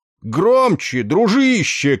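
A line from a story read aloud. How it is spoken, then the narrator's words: Shout. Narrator (Russian): крикнул он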